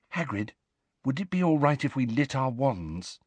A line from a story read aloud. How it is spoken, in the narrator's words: said Hermione quietly